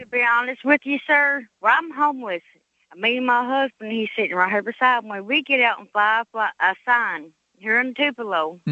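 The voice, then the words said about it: Kentucky Southern accent. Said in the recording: “Is that a Mississippi accent? ... No, it's a Kentucky. I was born and raised in Kentucky.”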